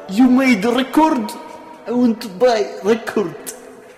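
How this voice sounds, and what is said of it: Very thick put-on Russian accent. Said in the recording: “in the most thickest Russian accent.”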